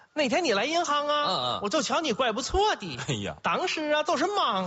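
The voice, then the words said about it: Put-on regional Chinese accent. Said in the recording (Chinese): “这个口音”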